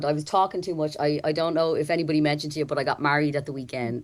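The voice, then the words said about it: Hoarse, strained, worn-out voice. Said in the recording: “sorry about my voice. It's just about hanging in there ... my voice is gone”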